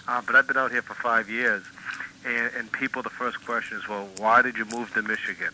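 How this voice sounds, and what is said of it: Massachusetts accent. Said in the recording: “And you're from Massachusetts, aren't you? ... I can tell by your accent”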